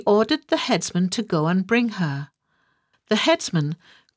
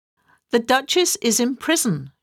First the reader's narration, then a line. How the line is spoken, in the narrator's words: she said